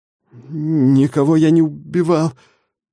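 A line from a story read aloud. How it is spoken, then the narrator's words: Stammering, forced out. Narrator (Russian): запинаясь, выдавил я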